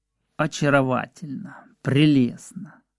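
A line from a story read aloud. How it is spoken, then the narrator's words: Repeated undertone. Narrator (Russian): Грушницкий поминутно говорил вполголоса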